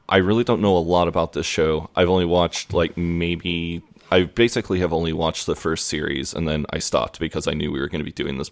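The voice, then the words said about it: Midwestern American accent. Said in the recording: “as we can all hear from your accent, you're not from around these parts... I am from Midwestern America”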